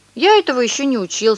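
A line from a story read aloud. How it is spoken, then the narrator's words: Plain. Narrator (Russian): сказал Павля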